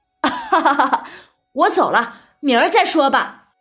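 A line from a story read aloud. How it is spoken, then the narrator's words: Laughing farewell. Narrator (Chinese): 笑着告辞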